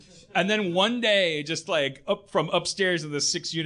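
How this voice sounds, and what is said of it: Usual voice. Nothing is said of it.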